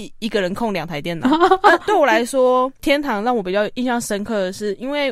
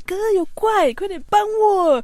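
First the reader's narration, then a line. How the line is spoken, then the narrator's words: Calling out. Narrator (Chinese): 我就叫坐在隔壁电脑的我哥，就说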